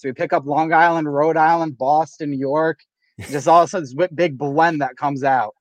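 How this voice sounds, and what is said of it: Blended New England accent. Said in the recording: “We got weird accents. ... You're a cornucopia of fucked up New England accents”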